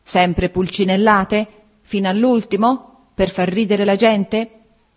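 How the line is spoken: Exclamation. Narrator (Italian): esclamò

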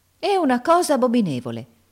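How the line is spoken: Exclaimed. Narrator (Italian): esclamò Miss Ophelia

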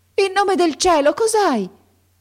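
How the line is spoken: Old woman shouting. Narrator (Italian): gridò la vecchia

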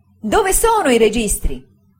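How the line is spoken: Frightening exclamation. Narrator (Italian): esclamò con una spaventevole espressione

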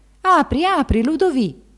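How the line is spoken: Exclaiming from outside. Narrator (Italian): L'abate dall'esterno esclamò

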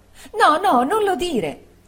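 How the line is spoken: Exclaimed. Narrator (Italian): esclamò Dora

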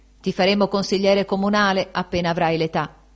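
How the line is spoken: Playfully patronizing exclamation. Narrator (Italian): Benedetto esclamò con tono scherzoso di protezione

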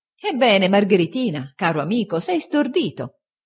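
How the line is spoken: Laughing exclamation. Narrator (Italian): esclamò Steerforth ridendo

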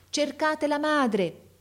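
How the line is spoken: Man shouting to crowd. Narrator (Italian): gridava il signore alla folla

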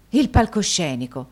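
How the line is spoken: Forceful exclamation. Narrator (Italian): esclamò Nicola quasi con la stessa forza

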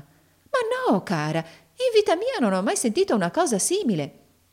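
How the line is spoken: Exclaimed. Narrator (Italian): esclamò la signora Nickleby

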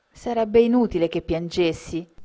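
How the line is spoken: Plain. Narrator (Italian): rispose Belinda

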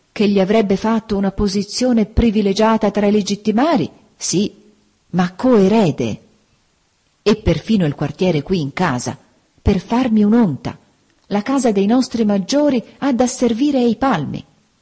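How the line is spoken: Duke exclaiming. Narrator (Italian): esclamava il duca

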